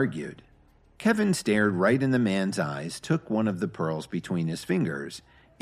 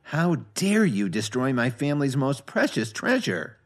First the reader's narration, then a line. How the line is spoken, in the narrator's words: McKay whined